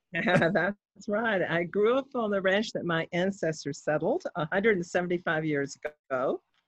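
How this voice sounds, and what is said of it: Texas accent. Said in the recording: “if I am reading your accent right ... it looks like you're a Texas girl”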